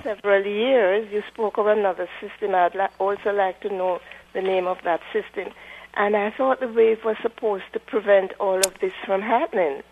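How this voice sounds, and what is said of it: Beautiful accent. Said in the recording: “I love your accent. It's beautiful.”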